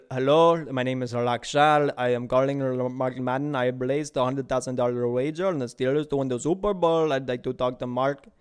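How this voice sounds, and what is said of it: Put-on Indian accent. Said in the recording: “I did my Indian accent. I'm really good. That's the only accent I can really do ... Not the best, but my best.”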